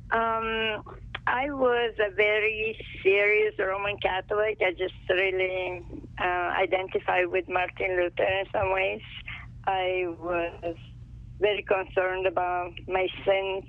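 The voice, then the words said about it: Italian accent. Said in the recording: “I was born and raised in Italy, so as you can tell by my accent.”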